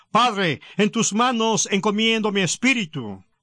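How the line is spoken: Loud cry. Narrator (Spanish): Jesús gritó con fuerza y dijo

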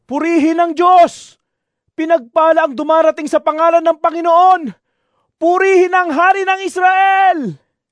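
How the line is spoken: Group shouting. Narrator (Tagalog): Sila'y sumisigaw

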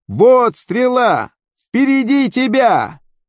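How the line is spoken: Shouting after someone. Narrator (Russian): Иоаннафан закричал ему вслед

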